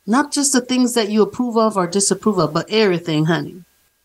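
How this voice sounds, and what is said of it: Lovely voice with an accent. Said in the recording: “your accent? ... voice is so lovely. I love your accent.”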